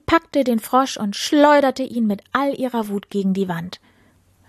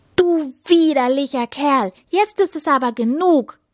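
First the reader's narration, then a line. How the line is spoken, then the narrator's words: Shouted angrily. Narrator (German): rief die Prinzessin zornig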